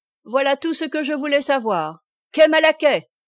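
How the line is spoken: Fiercely mocking shout. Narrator (French): cria Corentin au cocher en mettant d'infernales railleries dans son accent

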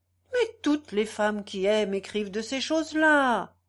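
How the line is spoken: Exclaiming. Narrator (French): s'écria

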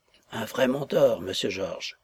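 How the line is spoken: Said quietly. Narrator (French): lui dit tout bas M

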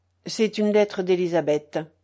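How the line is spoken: Cold. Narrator (French): dit Madame Georges froidement

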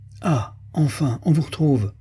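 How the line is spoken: Exclaimed. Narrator (French): s'écria le père Rock

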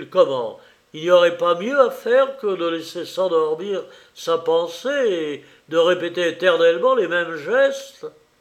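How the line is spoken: Exclaimed. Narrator (French): s'écriait

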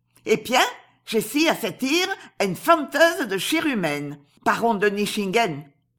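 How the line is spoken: Fearsome woman exclaiming. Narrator (French): s'écria la terrible Asie

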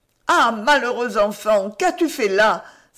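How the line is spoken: Tearful cry, mother. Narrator (French): s'écria sa mère tout en larmes

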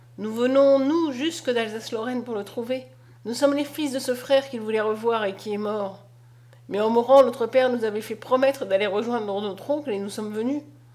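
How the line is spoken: Sad. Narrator (French): dit André tristement

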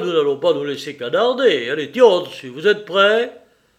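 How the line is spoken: Shouted again. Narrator (French): il cria de nouveau

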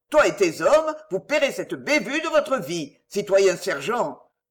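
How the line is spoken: Harsh. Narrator (French): dit durement Chauvelin

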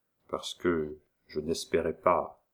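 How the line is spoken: Low, emotional reply. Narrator (French): répondit Léon à voix basse, son cœur battait à briser sa poitrine

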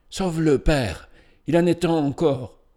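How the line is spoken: Pleading cry. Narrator (French): s'écria-t-elle d'un ton suppliant

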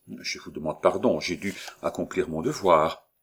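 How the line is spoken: Low but distinct voice. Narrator (French): dit le premier sergent de ville, d'une voix basse mais distincte

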